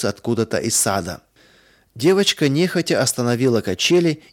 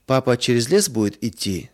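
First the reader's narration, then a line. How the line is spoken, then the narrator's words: Plain. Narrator (Russian): спросила она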